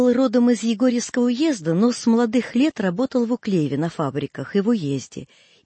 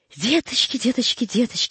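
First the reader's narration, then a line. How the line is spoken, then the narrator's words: Rapid muttering. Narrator (Russian): бормотал он быстро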